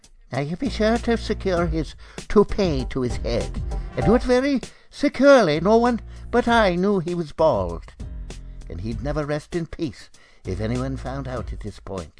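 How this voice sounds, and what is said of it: Poor put-on Irish brogue. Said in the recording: “Is that supposed to be an Irish accent, ma'am? That's the poorest brogue I've ever heard.”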